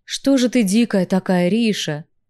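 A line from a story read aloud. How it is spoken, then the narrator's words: Sighing. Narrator (Russian): вздохнул Кай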